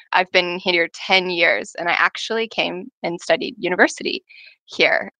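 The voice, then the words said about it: American accent. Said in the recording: “As you can tell, I'm an American accent.”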